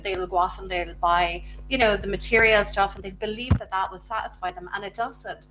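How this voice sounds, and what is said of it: Speaks with a noticeable accent. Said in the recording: “I like love your accent so much”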